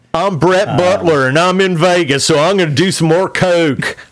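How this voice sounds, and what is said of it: Imitates another person's voice. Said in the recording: “my impression of ... Grace Under Fire”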